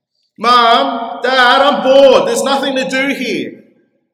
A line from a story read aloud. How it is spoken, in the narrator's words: cries out in somber tones and at the top of his lungs